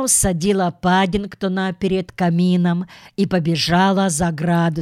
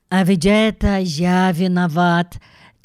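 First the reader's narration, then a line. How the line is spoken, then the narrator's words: Heavy sigh. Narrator (Russian): тяжело вздохнул Джонатан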